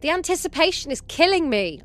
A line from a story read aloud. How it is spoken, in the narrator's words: I shouted out loud